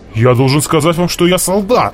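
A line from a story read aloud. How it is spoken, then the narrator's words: Offended. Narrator (Russian): обиженно сказал Джеффри Леон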